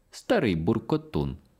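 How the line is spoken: Girl exclaiming. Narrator (Ukrainian): вигукнула котрась дівчина

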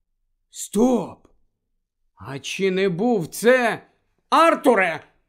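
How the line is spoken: Sudden exclamation. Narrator (Ukrainian): раптом вигукнула місіс Візлі

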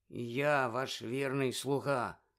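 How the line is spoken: Sullen grumble. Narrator (Ukrainian): понуро буркнув Червохвіст

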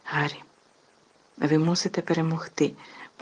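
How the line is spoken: Fervent whisper. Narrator (Ukrainian): палко зашепотів Персі

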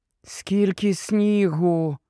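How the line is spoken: Muffled whisper. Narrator (Ukrainian): прошепотіла під плащем Герміона

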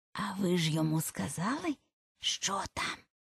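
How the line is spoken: Hoarse mysterious whisper. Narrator (Ukrainian): закінчила вона хрипким таємничим шепотом

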